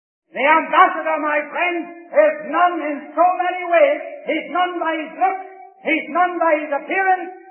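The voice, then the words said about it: Irish brogue accent. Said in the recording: “although I've still got the Irish brogue”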